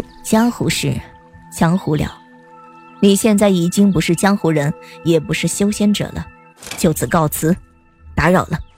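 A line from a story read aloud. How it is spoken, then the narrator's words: Sighing. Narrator (Chinese): 忽然就叹了口气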